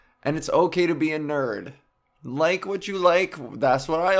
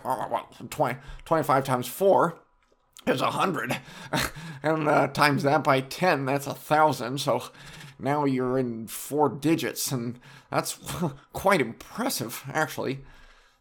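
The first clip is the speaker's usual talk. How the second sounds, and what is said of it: Nerdy put-on voice. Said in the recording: “That's my nerd voice”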